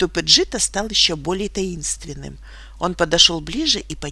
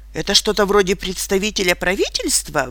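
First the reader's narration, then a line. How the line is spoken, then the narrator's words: Exclaimed. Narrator (Russian): воскликнул я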